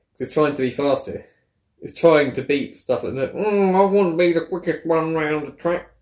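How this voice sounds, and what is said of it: Speaks with a noticeable accent. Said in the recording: “I love your accent”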